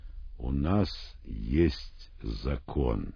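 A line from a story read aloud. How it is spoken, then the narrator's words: Plain. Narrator (Russian): ответили книжники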